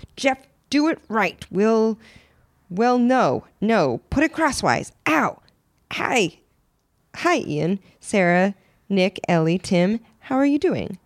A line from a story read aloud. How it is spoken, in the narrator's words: Henry Perf, head of the operation, was shouting at every worker